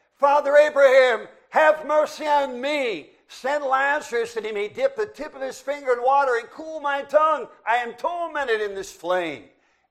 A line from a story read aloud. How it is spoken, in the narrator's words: he cried and said